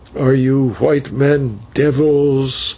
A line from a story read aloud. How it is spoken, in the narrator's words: said the old man at length, with a groan that seemed to burst from the bottom of his heart